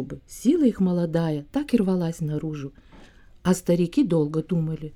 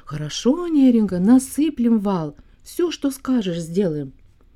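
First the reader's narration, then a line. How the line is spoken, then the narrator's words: Group shouting. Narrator (Russian): Молодые рыбаки сразу закричали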